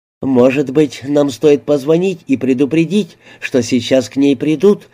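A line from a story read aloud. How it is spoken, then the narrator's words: Plain. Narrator (Russian): спросила Эмилия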